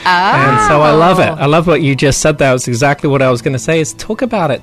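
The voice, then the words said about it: English accent. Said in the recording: “I'm from England, if you can tell with my accent ... It's a cool accent ... it sounds so cool.”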